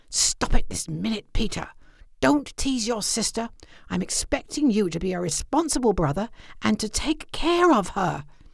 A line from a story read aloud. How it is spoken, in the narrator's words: hissed